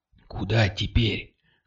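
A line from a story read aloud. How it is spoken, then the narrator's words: Whispered question. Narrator (Russian): шепотом спросила Кристина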